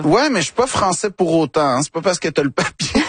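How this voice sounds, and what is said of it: Québécois French accent. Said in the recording (French): “je fais vraiment attention à ne pas perdre mon accent ... je tiens à rester québécois”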